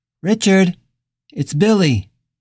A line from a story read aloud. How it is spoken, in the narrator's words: called out again